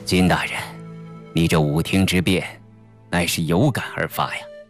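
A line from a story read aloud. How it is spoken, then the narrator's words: Admiring. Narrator (Chinese): 李顺赞叹着说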